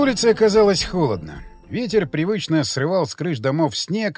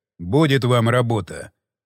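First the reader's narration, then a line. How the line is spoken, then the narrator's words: Sigh. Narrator (Russian): вздохнул Василенко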